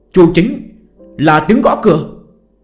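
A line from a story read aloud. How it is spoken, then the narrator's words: Sudden brave shout. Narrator (Vietnamese): Bỗng nhiên Dương Gian lấy hết can đảm hét lên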